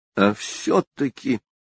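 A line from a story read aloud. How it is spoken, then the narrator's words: Gloomy, to herself. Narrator (Russian): мрачно сказала она самой себе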